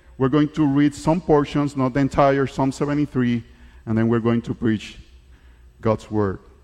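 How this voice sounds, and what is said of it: English with a foreign accent. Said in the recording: “before I preach in English ... my accent is not a distraction, but my accent is a reminder of the unity that we have in Christ from all nations”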